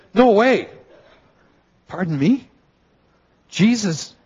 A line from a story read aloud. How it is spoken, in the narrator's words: John says